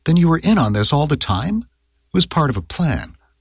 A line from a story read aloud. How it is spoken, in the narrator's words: Julie exclaimed